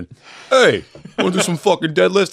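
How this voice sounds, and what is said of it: Cuomo impression. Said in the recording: “do a Cuomo impression. ... Oh, sorry, wrong Cuomo.”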